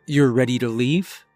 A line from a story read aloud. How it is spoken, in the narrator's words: asked